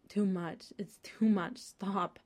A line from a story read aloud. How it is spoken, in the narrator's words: Fraser gasps and says